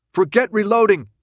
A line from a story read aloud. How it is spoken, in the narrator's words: Thomas shouted